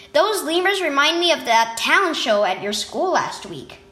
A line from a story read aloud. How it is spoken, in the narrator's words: Justine said